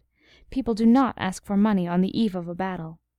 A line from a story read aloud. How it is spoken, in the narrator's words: Henry, indignant at this implied threat, had harshly replied